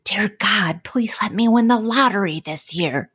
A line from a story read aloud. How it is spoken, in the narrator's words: The vice principal whispering